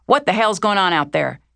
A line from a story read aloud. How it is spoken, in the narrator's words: Everyone was excited, making a commotion, and Dodger was shouting